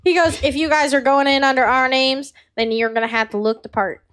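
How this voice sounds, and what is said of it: Character voice with inconsistent accent. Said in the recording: “This guy has no consistent accent.”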